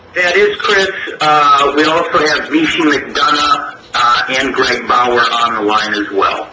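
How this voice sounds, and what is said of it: Nasal Midwestern American accent. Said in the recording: “my nasally Midwestern accent”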